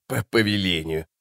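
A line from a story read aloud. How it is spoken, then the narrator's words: Old woman's snort. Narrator (Russian): фыркнула старуха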